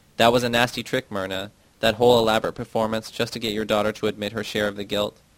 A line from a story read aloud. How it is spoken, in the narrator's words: exclaims